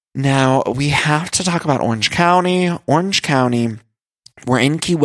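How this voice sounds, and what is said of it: Usual voice. Nothing is said of it.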